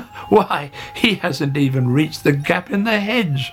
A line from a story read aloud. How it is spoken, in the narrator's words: laughed Hare